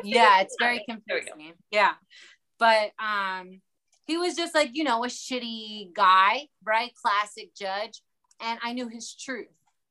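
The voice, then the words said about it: Baltimore accent. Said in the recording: “I'm from Baltimore, by the way. If you can't tell from the accent ... where is that accent?”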